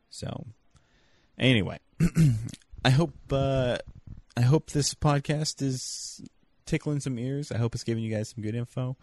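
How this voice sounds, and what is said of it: Drowsy, stoned-sounding late-night voice. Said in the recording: “It's late though, so I usually don't sound this stoned.”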